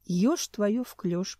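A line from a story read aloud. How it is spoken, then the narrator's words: Priest muttering. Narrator (Russian): пробормотал жрец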